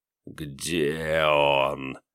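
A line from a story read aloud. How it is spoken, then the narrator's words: Rustling, insinuating voice. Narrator (Russian): шелестела боль вкрадчивым голосом Филина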